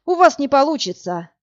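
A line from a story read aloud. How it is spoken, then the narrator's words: Sighing. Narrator (Russian): вздохнул Власик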